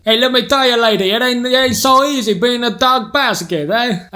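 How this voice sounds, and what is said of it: Character voice in an accent. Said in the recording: “me in an accent as that plate will tell you my problem”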